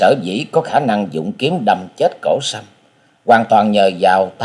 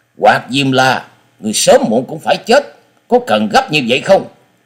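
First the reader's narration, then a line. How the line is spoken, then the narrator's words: Angry. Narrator (Vietnamese): Sinh Tử Phán Hồ Bưu giận dữ nói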